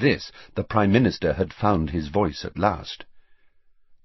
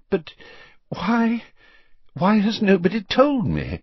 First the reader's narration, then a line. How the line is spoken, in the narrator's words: said the Prime Minister breathlessly